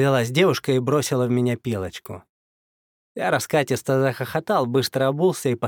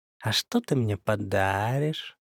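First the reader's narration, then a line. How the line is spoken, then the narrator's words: Sly drawl. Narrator (Russian): протянула эта лиса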